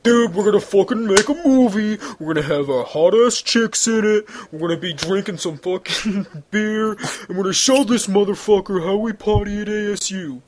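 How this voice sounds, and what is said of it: Poor imitation of a frat bro voice. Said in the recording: “That was a terrible impression. ... Yeah, that wasn't very bro.”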